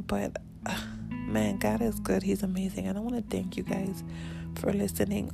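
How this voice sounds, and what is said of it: Raspy early-morning voice. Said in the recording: “it is early in the morning and I know my voice sounds pretty raspy”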